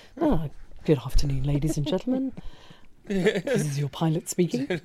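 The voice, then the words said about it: Airline pilot announcement voice. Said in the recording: “you should definitely do a pilot voice”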